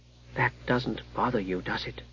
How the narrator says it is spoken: He whispered

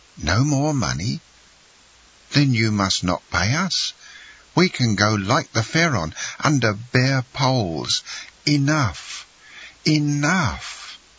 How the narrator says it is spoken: cried Morel, almost overpowered

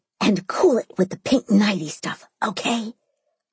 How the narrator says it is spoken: I whisper yelled

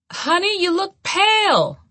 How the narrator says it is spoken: my mother shouted

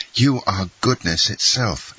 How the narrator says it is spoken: exclaimed Dantès

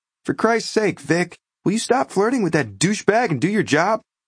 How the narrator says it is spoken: Again, from the booth behind me, yelled

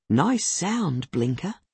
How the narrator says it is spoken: she whispers

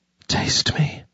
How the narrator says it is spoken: she breathed against his lips

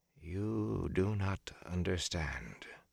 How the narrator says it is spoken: she said softly

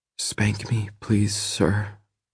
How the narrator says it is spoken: she says quietly

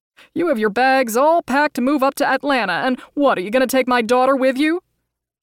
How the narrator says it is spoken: He laughed, then continued

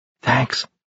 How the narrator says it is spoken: she whispered

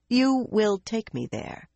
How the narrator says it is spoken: she said firmly

